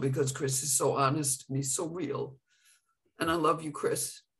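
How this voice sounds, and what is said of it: Emotional, choked-up voice. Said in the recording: “I'm getting emotional ... I'm just caught for a moment.”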